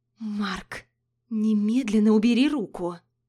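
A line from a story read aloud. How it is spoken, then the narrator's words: Hissed. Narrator (Russian): Зашипела я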